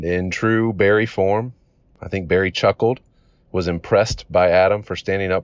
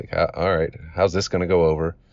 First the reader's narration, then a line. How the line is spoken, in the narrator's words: we kind of nervously laugh like